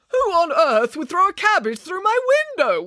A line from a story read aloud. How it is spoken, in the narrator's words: wailed Mr